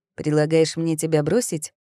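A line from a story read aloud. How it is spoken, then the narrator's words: Skeptical snort. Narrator (Russian): хмыкнул Тимьян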